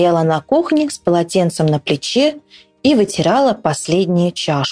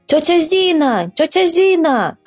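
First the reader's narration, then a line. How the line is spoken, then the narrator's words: Shouted. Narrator (Russian): крикнул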